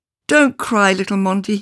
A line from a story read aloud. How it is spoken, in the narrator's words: called out